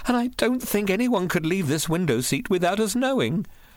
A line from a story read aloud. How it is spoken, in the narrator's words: Gorman in a trembling voice